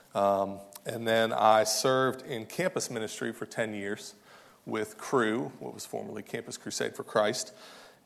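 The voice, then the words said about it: Kentucky Southern US accent. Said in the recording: “I have a little bit of an accent, as you can tell. I was born and raised in Kentucky”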